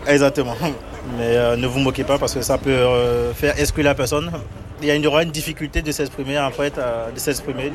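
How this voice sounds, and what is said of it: Beninese French accent. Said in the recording (French): “Mon accent, c'est... des fois, il y a par exemple les R qui ne sont pas bien prononcés ... Du Bénin, je suis béninois.”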